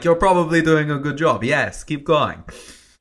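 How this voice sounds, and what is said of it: Put-on accent. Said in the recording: “I like the accent. It's great.”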